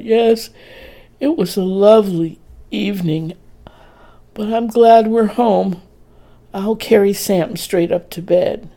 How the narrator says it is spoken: Dorrie stifled a yawn as she replied

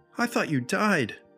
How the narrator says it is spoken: sobbed

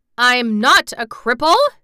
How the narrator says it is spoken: he cried out furiously

